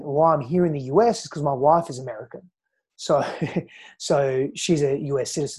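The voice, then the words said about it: Australian accent. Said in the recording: “hence the Australian accent ... that's the Australian accent”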